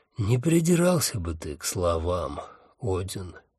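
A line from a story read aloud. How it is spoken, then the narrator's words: Tired. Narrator (Russian): устало сказала она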